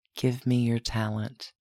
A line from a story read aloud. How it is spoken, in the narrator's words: Dominic leaned over, whispered